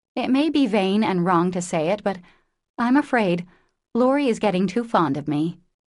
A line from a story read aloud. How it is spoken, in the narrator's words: said slowly, with sudden color in her cheeks